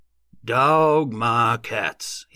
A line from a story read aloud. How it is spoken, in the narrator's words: exclaimed in an odd voice